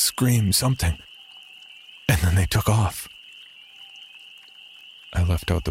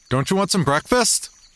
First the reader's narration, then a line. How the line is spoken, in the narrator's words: I called out